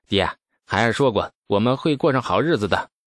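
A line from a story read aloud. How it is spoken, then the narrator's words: Long sigh. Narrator (Chinese): 李道正长长叹息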